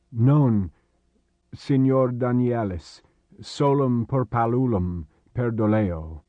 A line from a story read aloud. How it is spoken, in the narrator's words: Faltering, he said